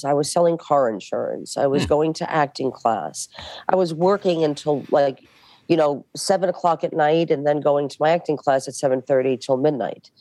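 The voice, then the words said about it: Thick Brooklyn New York accent. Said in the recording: “my New York accents ... I had a very thick Brooklyn accent ... I don't think you should lose your accent”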